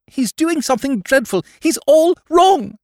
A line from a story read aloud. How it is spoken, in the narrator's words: cried the young woman, with desperate vehemence